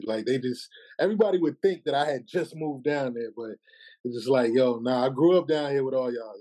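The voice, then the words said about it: New York accent. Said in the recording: “because of my accent ... people who have New York accents, it's kind of hard not to inherit that ... my accent always was with me”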